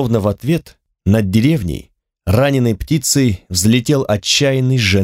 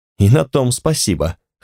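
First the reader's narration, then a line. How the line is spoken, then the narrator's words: Snort. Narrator (Russian): хмыкнул Фуда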